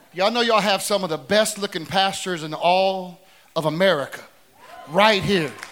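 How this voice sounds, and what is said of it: Southern country Tennessee accent. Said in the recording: “As you can tell from the accent, ... I'm just kidding. I'm a Tennessee boy, so I'm a country boy.”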